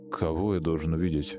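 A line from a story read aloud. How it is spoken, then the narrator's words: Dry reply. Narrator (Russian): Сухо ответил Олежка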